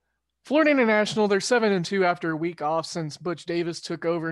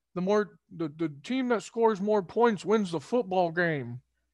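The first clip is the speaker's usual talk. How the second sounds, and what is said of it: Imitates another person's voice. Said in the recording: “John Madden... That was a terrible impersonation”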